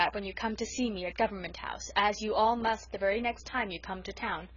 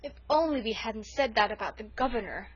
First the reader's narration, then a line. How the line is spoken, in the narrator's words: moaned